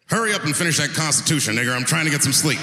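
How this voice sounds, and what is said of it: Impression of the founding fathers. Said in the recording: “This is my impression of the founding fathers of America when the Constitution was being written”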